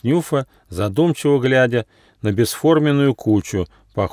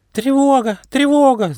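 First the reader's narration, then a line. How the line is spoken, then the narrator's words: Squeaking alarm. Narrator (Russian): запищали термиты, охранники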